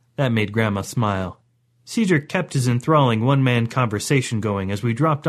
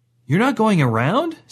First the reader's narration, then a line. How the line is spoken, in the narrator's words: Cedric asked nervously